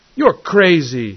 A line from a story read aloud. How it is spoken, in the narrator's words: he cried fiercely